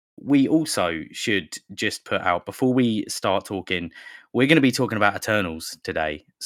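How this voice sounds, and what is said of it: Slightly unwell-sounding voice. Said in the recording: “I am still a little bit unwell. You might hear it in my voice.”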